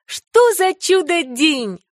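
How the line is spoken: Exclaiming. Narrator (Russian): воскликнула Энни

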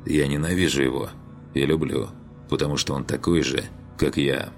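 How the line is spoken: Whisper. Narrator (Russian): мистик прошептал

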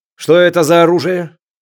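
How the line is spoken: Hard, ringing voice. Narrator (Russian): жестко звенящим голосом продолжал Чатраги

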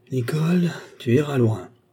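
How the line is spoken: Sighing. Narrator (French): soupira-t-il

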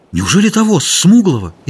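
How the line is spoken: Frightened question. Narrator (Russian): испуганно спросил он

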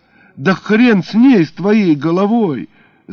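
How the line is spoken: Full-voiced yell. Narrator (Russian): заорал Витяня в полный голос

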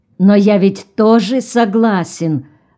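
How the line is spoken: Offended. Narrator (Russian): обиженно сказал Тегренкелл

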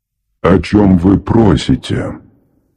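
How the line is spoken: Repeated softly. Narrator (Russian): Повторил я вопрос, мягко

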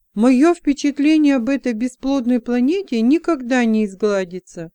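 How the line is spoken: Exclaimed with feeling. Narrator (Russian): с чувством воскликнула Леса

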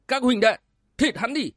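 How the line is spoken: Shouted. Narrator (Vietnamese): Tên hán tử vừa nói quát lên

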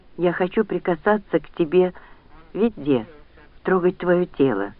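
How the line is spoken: Breathless whisper. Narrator (Russian): задыхаясь, прошептал он

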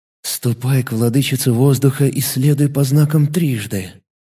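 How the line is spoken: Whisper. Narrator (Russian): прошептал писатель

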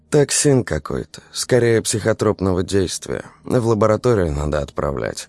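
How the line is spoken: Dry reply. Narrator (Russian): ответила Дарья Ивановна сухо

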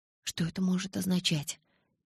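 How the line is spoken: Frightened insistent questioning. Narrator (Russian): испуганно допытывалась я

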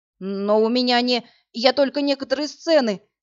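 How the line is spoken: Babbling. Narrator (Russian): залепетал голос

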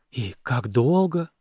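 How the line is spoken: Breathless exhale. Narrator (Russian): выдохнула Люси

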